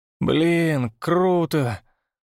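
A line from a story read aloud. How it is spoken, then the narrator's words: Drawled, swallowing. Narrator (Russian): протянул Степа, сглатывая слюну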